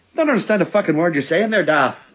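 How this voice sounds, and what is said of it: Poor attempt at Irish accent. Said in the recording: “The only time I can ever do an Irish accent is just my poor attempt at trying to do... Daniel Day-Lewis and the name of the father”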